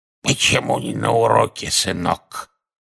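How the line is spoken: Hoarse wheeze. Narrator (Russian): Одна из них прохрипела

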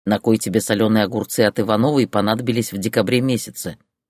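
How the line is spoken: Grumbling old woman. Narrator (Russian): ворчала бабка Маруся

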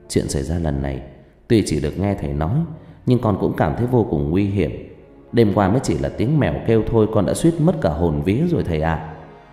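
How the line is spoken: Soft question. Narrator (Vietnamese): Tư khẽ hỏi

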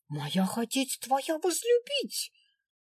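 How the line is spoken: Indignant. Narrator (Russian): возмущенно заявила в ответ Аленка

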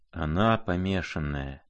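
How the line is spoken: Pained mutter. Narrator (Russian): пробормотал князь, с болью

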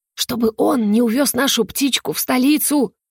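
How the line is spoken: Loud whisper. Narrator (Russian): Громким шепотом пояснила Мирта

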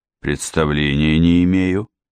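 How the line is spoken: Snort. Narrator (Russian): хмыкнул тот

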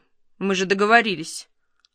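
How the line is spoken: Stern. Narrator (Russian): Юкин строго сказал Михайлову

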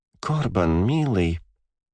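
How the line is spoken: Mumbled. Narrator (Russian): пробормотал я

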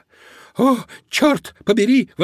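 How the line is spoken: Exclaimed. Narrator (Russian): воскликнул Додо

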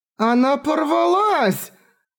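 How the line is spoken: Startled shout. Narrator (Russian): закричала непривычная к неожиданностям Рафталия

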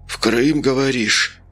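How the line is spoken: Hoarse question. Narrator (Russian): хрипло спросил Сиплый

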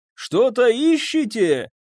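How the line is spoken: Man shouting through rain. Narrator (Russian): прокричал через ливень человек

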